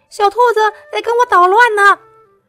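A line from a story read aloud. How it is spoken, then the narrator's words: Shouting. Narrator (Chinese): 比利喊道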